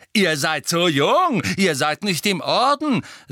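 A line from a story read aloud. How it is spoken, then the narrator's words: Shrill voice, like his mother's. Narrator (German): sagte Fred mit schriller Stimme, die unverkennbar nach der seiner Mutter klang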